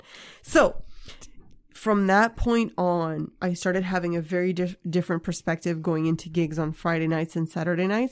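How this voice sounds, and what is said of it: Noticeable accent coming through. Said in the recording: “My accent's coming out.”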